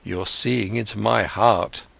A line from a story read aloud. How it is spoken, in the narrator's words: Siddhartha spoke sadly